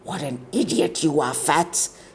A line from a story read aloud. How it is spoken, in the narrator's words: hissed a girl into her ear